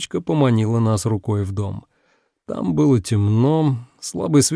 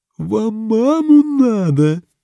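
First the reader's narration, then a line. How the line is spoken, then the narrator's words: Eerie voice, girl. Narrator (Russian): Снова таким же жутким голосом спросила девочка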